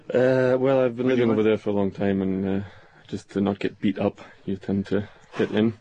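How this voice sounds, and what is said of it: Scottish accent. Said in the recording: “You affect that Scots accent?”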